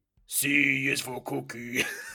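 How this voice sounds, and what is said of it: Cookie Monster impression. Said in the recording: “I can't do any real like Muppet impressions, impersonations. ... I think the only one I could probably do is like Cookie Monster. ... Let me hear your best cookie.”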